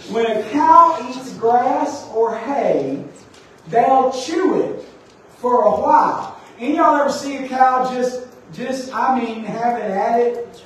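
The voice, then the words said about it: Mississippi Southern accent. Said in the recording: “I have a Mississippi accent”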